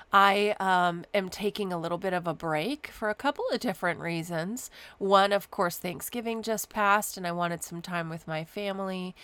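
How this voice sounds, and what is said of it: Voice sounds sick with a cold. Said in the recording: “If you can't tell from my voice, I'm also fighting a little bit of a cold.”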